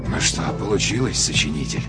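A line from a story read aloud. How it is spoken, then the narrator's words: Muttered under breath. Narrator (Russian): пробормотал человек сам себе под нос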